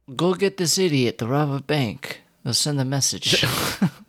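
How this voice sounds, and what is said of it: Mobster accent, Italian or Russian. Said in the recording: “Is that an Italian accent or a Russian accent? ... It's whatever mob you want.”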